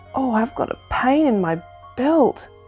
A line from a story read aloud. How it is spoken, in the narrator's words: groaned Cuddle Pie